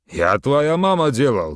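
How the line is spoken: Loud, fat man. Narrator (Russian): громко сказал жирный вагон-ресторанщик Садык

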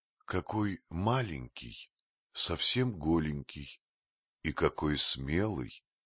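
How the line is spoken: Gentle motherly voice. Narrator (Russian): мягко сказала волчица-мать

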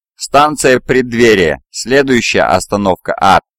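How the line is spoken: Snide joking chatterbox. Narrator (Russian): ехидно остроумничал давешний трепач

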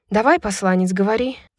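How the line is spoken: Sighed. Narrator (Russian): вздохнула Брайс

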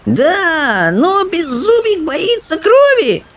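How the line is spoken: Little dragon whimpering. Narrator (Russian): хныкал дракончик

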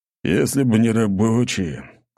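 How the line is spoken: Sudden sigh. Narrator (Russian): неожиданно вздохнул Аршавин

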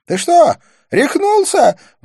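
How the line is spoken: Astonished shrill squeal. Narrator (Russian): взвизгнула она, изумленно

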